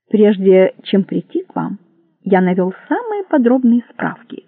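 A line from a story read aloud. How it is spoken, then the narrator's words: Plain. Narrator (Russian): сказал он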